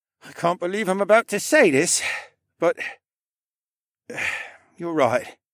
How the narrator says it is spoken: he sighed

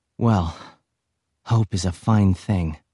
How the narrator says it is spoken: sighed

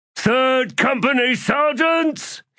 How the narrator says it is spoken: He bellowed

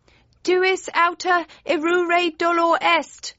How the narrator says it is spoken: yelled Friday

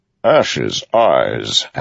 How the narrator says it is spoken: Amaram said, chuckling

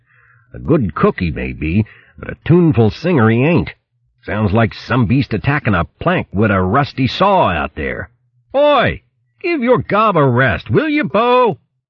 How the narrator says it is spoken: Doolam complaining bitterly

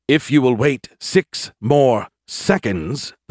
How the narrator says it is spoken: the suit spat

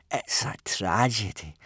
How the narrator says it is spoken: sighed Snotlout

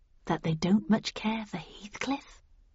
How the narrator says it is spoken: I whispered back

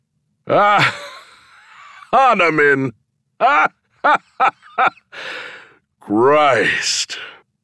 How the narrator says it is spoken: Between his laughter, he said

